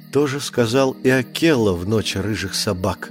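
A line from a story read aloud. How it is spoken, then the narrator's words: Muttering. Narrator (Russian): пробормотал Маугли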